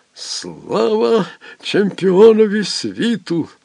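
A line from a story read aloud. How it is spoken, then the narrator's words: Sudden hoarse blind man. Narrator (Ukrainian): прохрипів раптом сліпий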